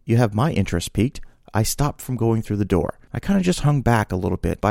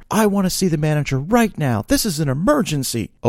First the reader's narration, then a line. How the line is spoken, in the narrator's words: the lady yell, not talk, yell across the counter